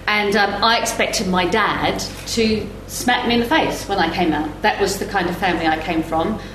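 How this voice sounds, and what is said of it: Mixed London and New Zealand accent. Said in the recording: “I do come from that grotty council estate, and mine was in Woolwich, and it was absolutely a grotty council estate, and then it was a grotty timber town in New Zealand, hence the accent.”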